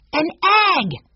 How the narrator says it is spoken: shouted Benny

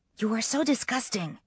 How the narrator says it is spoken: Kate whispers, although there's a smile behind it

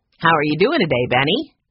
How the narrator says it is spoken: asked cheerfully

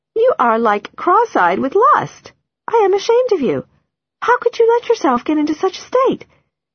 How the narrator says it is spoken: She laughs

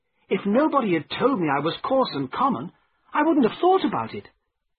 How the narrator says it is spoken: I continued crossly

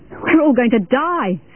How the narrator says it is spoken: screamed a man

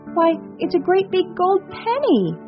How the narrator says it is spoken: Irene cried

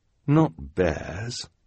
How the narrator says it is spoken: the scout in the sweater said, so quietly that the two Baudelaires had to lean in to hear him

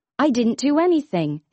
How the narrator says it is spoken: his brother answered

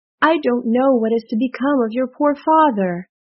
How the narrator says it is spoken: groaned Midas

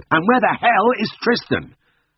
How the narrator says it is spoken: I heard his shouts in the kitchen

